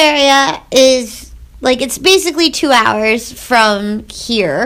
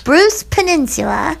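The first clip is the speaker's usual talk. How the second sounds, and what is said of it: Funny put-on accent on words. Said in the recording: “You sound like Samantha from Sex and the City... Like Jenna from 30 Rock, where you give it like a funny accent.”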